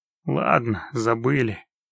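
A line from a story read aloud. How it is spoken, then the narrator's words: Sighing. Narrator (Russian): вздохнул Геральт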